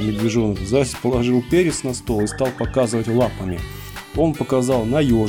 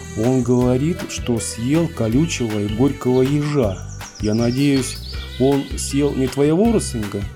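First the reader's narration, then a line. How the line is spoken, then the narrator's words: Plain. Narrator (Russian): сказал медвежонок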